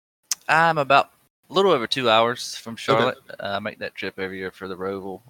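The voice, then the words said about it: Southern North Carolina accent. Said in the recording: “everybody has that accent”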